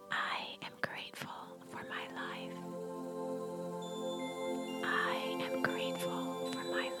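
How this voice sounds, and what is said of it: Whispered speech. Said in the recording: “Now repeat in a whisper”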